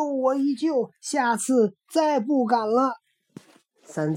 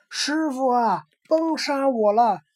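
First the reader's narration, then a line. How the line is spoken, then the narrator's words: Loud distant call. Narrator (Chinese): 林深处高声叫道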